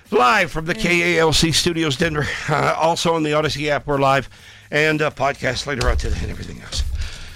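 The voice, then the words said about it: Out of breath, panting. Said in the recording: “I'm out of breath.”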